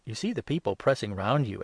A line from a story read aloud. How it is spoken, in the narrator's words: exclaimed his disciples